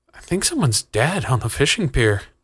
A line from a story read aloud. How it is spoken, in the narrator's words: Jonathan breathed